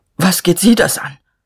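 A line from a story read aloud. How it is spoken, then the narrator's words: Stammering. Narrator (German): Er stammelte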